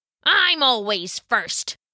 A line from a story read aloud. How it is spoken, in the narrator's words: the right goat grunted back